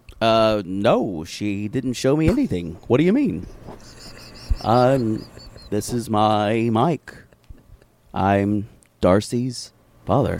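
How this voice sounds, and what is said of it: Canadian radio host style voice. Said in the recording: “He sounds like a Canadian radio host.”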